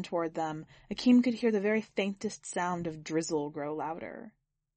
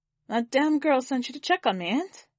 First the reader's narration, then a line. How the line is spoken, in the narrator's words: Akeem chuckled